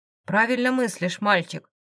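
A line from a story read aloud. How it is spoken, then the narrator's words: Amused snort. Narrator (Russian): хмыкнув, произнес Арс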